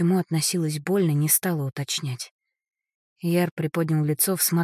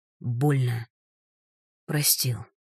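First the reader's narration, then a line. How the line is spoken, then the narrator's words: Wheezing. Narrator (Russian): прохрипел Ярослав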